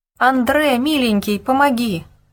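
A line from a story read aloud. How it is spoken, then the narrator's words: Terrified screaming. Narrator (Russian): Окончательно потеряв голову от страха, кричала Гебель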